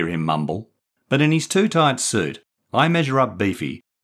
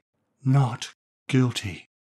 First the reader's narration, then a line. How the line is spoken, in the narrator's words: whispers huskily